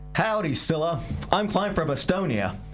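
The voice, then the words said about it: American accent. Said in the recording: “But you sound like you're from America.”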